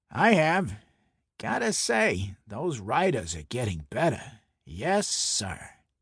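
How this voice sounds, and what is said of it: Thick Brooklyn accent. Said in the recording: “he said in his thick Brooklyn accent.”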